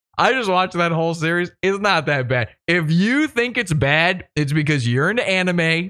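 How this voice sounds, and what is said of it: Usual voice. Nothing is said of it.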